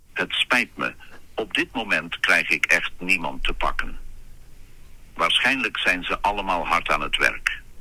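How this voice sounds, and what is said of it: Dutch spoken with English accent. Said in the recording (Dutch): “zo'n goedkope stemacteur ... met een Engels accent, want dat klinkt lekker internationaal”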